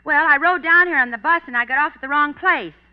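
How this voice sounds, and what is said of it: Out of breath, breathless speech. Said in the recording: “why are you so out of breath?”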